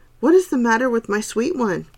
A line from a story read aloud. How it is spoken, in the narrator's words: cried Dorothy